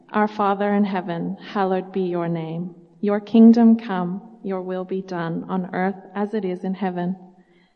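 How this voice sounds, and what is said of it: Speaks with an accent. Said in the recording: “I'm a missionary kid, that's what the accent is”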